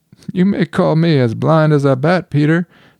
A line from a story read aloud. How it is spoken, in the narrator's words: said with a laugh